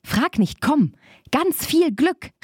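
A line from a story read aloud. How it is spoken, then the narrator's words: Calling out. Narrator (German): rief Barbe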